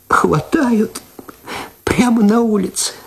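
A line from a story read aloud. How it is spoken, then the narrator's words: Tearful. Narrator (Russian): сквозь слезы сказала она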